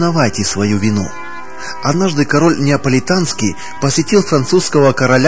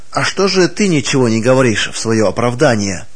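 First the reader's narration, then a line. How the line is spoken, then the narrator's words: Plain. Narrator (Russian): спросил его король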